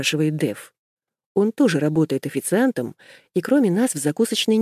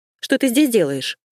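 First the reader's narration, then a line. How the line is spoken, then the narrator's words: Angry question. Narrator (Russian): сердито спрашиваю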